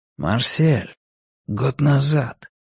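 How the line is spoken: Quiet voice. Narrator (Russian): тихим голосом продолжил

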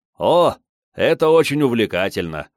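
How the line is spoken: Cheerful, smiling. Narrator (Russian): радостно улыбнулся Долгов

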